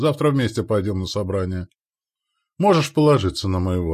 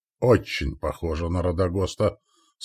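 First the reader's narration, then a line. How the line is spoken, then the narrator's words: Dry chuckle. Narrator (Russian): сухо усмехнулся я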